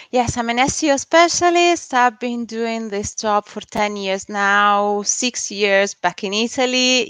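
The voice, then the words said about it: Italian accent in English. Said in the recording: “she's originally from Italy ... You can hear from my accent that I'm not originally, I wasn't originally born here.”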